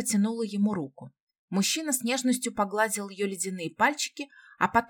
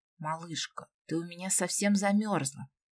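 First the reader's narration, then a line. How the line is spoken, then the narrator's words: Tender whisper. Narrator (Russian): прошептал он, с нежностью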